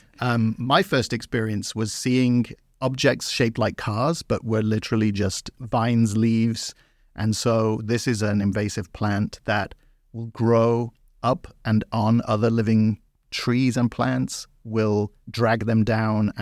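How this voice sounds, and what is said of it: Non-Southern accent. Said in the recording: “As you can tell from my accent, I'm not from the southeast of the United States.”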